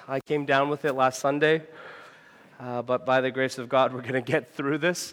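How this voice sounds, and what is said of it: Sick, congested voice. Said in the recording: “I'm sick. You can probably hear that in my voice... I might be a snotty mess”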